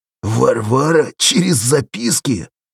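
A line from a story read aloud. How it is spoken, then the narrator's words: Choking with laughter. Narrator (Russian): Попеленко захлебнулся хохотом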